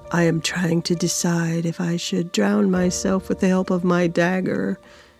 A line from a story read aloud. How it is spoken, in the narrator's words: Rovash said in a calm voice